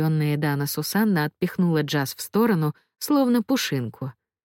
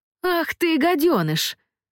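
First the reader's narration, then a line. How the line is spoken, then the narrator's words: Shrieked. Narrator (Russian): завизжала Эдана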